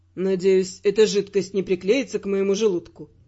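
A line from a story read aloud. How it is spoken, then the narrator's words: Gloomy inquiry. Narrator (Russian): мрачно осведомился Раймонд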